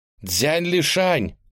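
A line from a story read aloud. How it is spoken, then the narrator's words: Shouting with all her might. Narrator (Russian): изо всех сил крикнула она в небо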